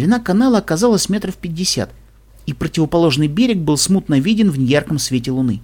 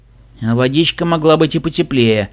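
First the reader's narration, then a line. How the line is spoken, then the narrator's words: Grumbling mutter. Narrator (Russian): буркнул Шон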